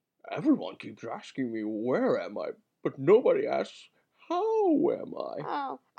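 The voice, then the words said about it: Poor Scooby-Doo cartoon dog impression. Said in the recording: “That was a terrible Scooby-Doo. I think that might be one of my worst impressions ever.”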